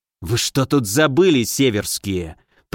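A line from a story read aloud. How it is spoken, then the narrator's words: Hissed. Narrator (Russian): прошипел он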